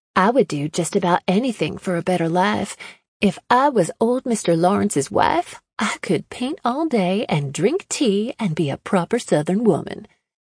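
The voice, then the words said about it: Fake Southern accent. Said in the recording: “in a faux southern accent ... the change in her voice”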